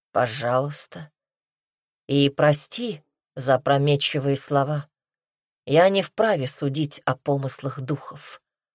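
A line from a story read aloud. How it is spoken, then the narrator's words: Guard speaking calmly. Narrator (Russian): Страж спокойно произнес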